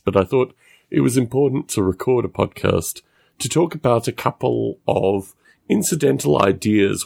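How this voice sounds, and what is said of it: Rough, messed-up voice. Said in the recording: “my voice is messed up tonight. I'm sorry about my voice”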